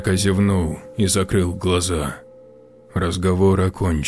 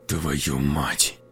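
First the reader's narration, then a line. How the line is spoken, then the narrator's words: Through gritted teeth. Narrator (Russian): Процедил сквозь зубы Артем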